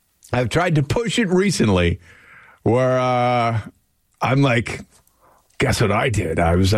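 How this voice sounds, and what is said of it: Usual voice. Nothing is said of it.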